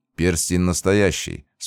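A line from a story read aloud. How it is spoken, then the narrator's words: Calm reply. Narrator (Russian): спокойно ответил я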